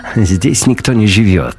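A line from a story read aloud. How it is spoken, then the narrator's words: Laughing. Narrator (Russian): рассмеялся Дюпон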